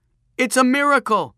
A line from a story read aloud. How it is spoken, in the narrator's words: shouted Peter